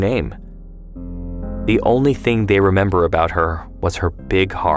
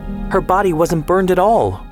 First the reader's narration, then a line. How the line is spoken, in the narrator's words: Ortal would shout